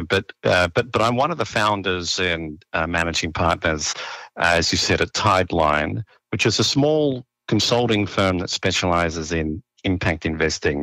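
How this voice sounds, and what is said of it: Australian accent. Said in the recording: “my strange accent. I'm from down under.”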